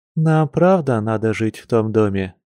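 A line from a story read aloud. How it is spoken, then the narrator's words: Grim question. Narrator (Russian): мрачно спросила она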